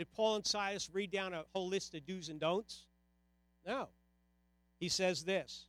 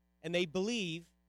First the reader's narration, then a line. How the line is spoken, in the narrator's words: they said